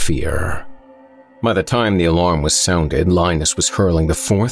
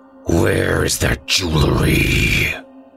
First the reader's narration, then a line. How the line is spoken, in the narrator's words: he snarled